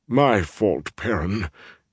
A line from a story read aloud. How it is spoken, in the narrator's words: he rumbled mournfully